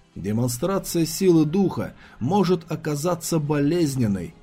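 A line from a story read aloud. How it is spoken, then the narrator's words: Plain. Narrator (Russian): сказал он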